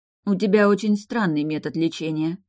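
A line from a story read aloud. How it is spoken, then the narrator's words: Grumbling. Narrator (Russian): проворчала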